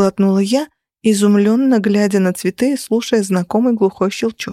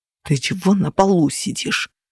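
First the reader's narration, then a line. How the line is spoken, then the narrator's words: Hissing. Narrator (Russian): прошипели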